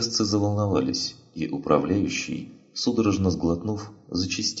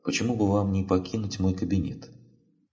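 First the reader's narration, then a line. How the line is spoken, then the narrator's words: Calm. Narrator (Russian): Все так же спокойно сказала она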